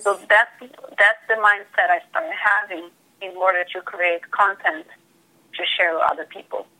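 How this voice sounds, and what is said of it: Non-native English accent. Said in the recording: “my accent or not having perfect English, because English is not my first language”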